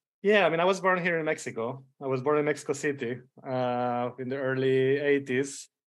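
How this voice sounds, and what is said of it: Spanish accent. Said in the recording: “I hear a Spanish accent”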